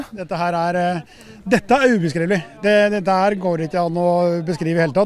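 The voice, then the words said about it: Norwegian Østerdalen dialect. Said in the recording (Norwegian): “Det var fin dialekt, da. ... Ja, fra Østerdalen.”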